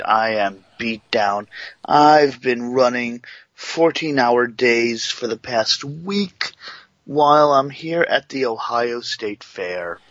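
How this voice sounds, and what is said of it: Hoarse, worn-out voice. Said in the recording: “you sound horrible ... My voice is a little holy shot crap to hell side ... My voice is shot to hell tonight.”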